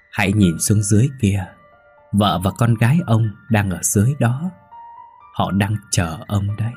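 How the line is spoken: Sweet voice. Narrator (Vietnamese): Mây nói bằng giọng ngọt ngào

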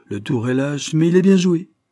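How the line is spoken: Exclaimed. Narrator (French): s'écria-t-il

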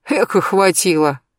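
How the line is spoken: Snorted. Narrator (Russian): хмыкнул Берсеньев

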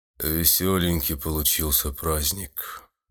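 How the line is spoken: Sad executioner. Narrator (Russian): грустно произнес палач

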